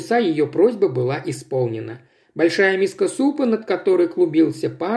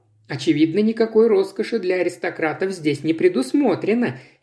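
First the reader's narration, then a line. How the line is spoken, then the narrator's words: Cheerful remark. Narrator (Russian): весело отметила Джейн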